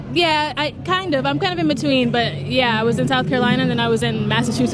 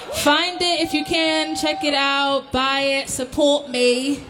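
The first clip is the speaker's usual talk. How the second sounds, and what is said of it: Put-on British accent. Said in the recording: “That's my British accent. Is it all right? Is it bad? Is it terrible? It's pretty good, yeah?”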